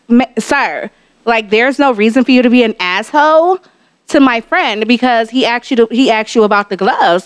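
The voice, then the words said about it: Polite professional customer-service voice. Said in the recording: “I put on my professional, I put on my Allstate voice ... The customer service.”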